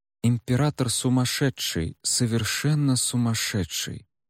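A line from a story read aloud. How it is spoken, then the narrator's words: Quiet and clear. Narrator (Russian): негромко и отчетливо продолжил он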